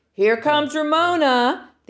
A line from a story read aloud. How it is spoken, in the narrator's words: the other boys and girls shouted